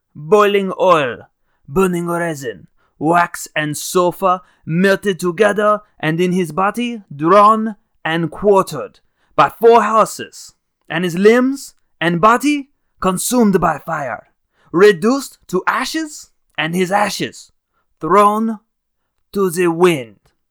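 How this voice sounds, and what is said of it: Poor imitation French accent. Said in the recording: “I do a really terrible French accent.”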